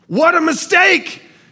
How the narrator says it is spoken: shouted the announcers

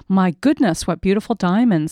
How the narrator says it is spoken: the girl exclaims

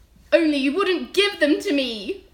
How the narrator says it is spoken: Lumpkin shouted angrily

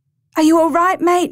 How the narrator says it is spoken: Michael yelled as he burst into a run towards his nephew

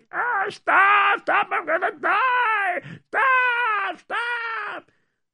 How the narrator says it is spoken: Ivan was screaming

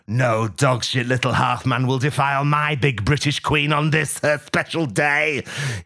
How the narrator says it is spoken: he bellows furiously

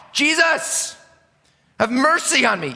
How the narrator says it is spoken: yelling at the top of his lungs

